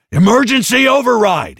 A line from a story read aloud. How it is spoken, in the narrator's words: he yelled